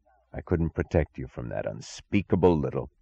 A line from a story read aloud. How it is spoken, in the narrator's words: He said through his teeth, not as an answer, but as if the single thought battering his brain turned into sounds against his will